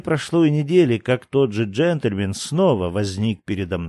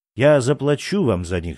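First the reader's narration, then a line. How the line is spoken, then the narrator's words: Plain. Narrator (Russian): сказал он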